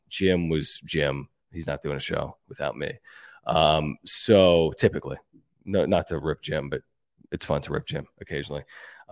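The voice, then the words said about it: Sick, under-the-weather voice. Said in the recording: “I was under the weather. You can probably hear it in my voice.”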